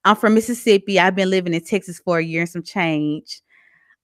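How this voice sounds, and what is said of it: Strong Southern US accent. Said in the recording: “I have a very southern accent.”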